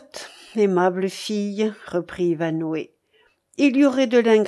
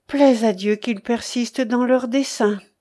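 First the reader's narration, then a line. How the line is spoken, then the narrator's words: Exclaiming. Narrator (French): s'écria Ivanhoé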